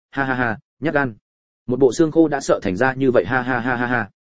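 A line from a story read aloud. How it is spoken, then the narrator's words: Loud laughter. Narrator (Vietnamese): không khỏi vỗ tay cười lớn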